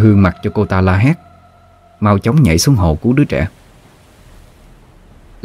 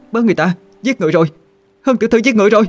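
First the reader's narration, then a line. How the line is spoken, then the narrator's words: Loud scream. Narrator (Vietnamese): có người hét toáng lên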